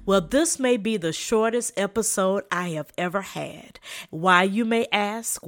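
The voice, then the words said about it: Slight Southern American accent. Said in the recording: “a slight southern accent in my voice, I am from South Carolina”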